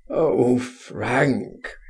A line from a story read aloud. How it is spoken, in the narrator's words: he groaned